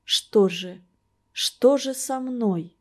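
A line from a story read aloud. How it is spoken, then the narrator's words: Desperate whisper. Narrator (Russian): Ольга Денисовна спросила отчаянным шепотом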